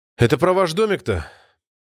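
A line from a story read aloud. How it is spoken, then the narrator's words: Sighing. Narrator (Russian): вздохнул рейдер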